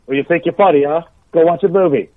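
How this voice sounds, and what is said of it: Put-on English accent. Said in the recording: “That's a great English accent.”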